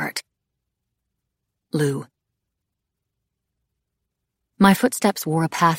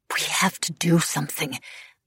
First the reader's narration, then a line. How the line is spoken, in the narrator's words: I muttered to Coco